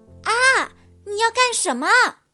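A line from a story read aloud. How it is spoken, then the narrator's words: Screaming. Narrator (Chinese): 狐狸小姐尖叫道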